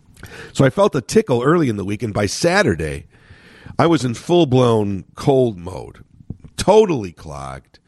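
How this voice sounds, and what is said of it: Slightly nasal congested voice. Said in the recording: “you could hear that my voice is a little nasal. But at least it's not hoarse. At least there's some strength to it”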